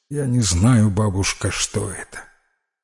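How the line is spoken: Quiet, hesitant. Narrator (Russian): Наконец Питер тихо произнес

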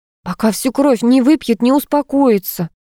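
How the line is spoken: Offended hiss. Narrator (Russian): обиженно прошипела Зуфарова

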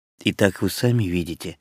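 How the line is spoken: Forced firmness, strained smile. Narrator (Russian): сказал, сколько мог твердым голосом и с принужденной усмешкой

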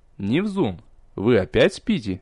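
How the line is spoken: Displeased teacher interrupting. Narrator (Russian): недовольным голосом прервал преподаватель

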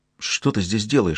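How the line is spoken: Whispered. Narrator (Russian): шепнула она

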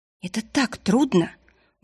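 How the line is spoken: Breathless exhale. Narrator (Russian): выдохнула Марилиса

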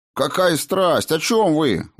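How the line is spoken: Exclamation. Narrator (Russian): воскликнул

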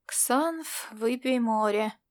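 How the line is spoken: Muttered. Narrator (Russian): пробормотал он

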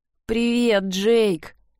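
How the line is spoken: Hoarse. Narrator (Russian): хрипло произнесла она

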